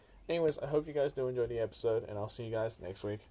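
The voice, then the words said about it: Sick, failing voice. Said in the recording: “I am doing a very, very sick episode, so please do understand if the voices do change. My voice is dying very, very slowly... I am very fucking sick.”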